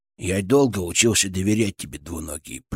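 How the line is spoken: Grumbling mutter. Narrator (Russian): пробурчал он

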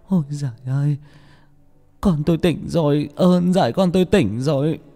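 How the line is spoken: Mother's tearful sobbing. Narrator (Vietnamese): Người mẹ chạy tới ôm lấy con mà mếu máo

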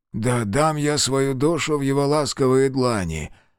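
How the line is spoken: Strained, forced out. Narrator (Russian): выдавил себя Кейран

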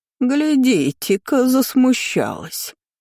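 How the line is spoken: Nasty drawl. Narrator (Russian): противно протянула тетка

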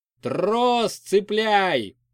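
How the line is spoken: Shout. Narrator (Russian): закричал тракторист

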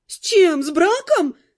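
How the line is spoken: Indignant exclamation. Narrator (Russian): воскликнула наемница, возмущенно

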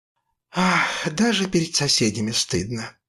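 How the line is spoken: Sighing mother. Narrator (Russian): вздохнула мама

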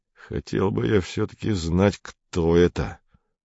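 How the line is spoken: Through gritted teeth. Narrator (Russian): сказал диспетчер сквозь зубы

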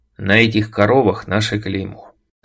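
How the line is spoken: Calm. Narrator (Russian): спокойно сказал я

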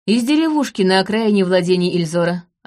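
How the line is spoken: Plain. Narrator (Russian): ответил Трейс

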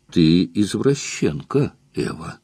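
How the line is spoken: Quiet. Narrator (Russian): Я негромко говорю ей

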